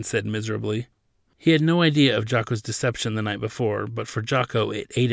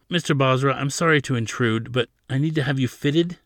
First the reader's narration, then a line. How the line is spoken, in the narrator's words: Jocko said